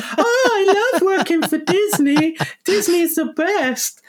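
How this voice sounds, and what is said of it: Mickey Mouse cartoon voice impression. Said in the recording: “That's a brilliant Mickey Mouse impersonation.”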